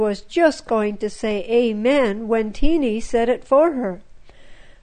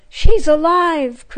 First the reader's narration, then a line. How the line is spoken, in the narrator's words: cried Frida